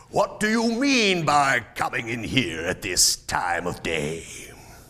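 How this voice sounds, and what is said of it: Gruff growling old man's voice. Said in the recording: “growled Scrooge in his accustomed voice, as near as he could feign it.”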